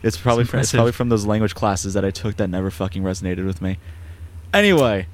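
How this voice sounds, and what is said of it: New York accent. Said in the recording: “I am a guy with a New York accent”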